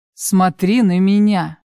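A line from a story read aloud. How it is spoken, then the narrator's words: Rude curt retort. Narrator (Russian): Грубо отрезает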